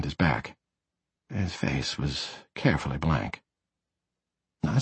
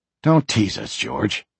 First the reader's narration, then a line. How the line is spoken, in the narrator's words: growled